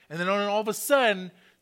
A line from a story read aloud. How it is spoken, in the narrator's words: she screams out